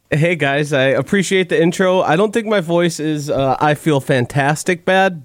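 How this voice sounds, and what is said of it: Unusually deep, bassy voice. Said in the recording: “I do not sound like myself ... you sound better. A little deeper, a little more bass, not as much ... treble. ... a little Barry White”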